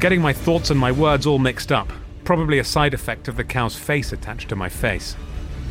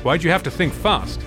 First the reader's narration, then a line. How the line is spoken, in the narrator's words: he asked